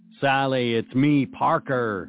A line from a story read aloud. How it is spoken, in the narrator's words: said in a robotic voice